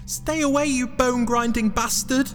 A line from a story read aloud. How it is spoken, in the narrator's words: yelled Jack